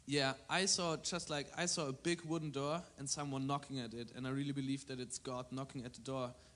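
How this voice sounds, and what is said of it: Thick German accent. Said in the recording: “from Germany. That's my thick accent”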